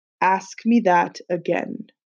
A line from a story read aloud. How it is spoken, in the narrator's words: he said in a low and menacing voice